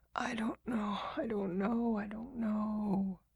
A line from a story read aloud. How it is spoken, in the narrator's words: The messenger replied in his broken whisper